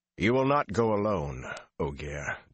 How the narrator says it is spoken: Dobrain said

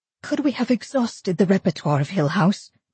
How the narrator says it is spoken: Theodora asked, her voice shaking in spite of her light tone

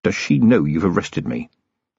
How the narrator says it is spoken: Vimes whispered

